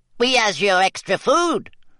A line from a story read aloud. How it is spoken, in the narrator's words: squeaked an elf